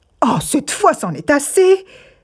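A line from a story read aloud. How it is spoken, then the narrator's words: Brother crying out. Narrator (French): s'écria le frère Sib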